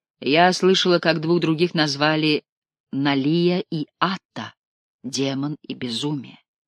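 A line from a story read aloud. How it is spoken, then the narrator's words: Plain. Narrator (Russian): сказала Таис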